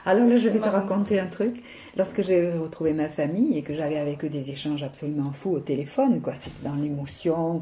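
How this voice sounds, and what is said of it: Mild southern French accent. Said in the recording (French): “Je sais que mon accent fait sourire des fois. ... moi je suis du midi, oh, ça s'entend, ils disent. ... je trouve pas que tu aies un accent très fort”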